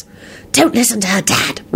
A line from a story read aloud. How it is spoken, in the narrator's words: Rosie whispered quickly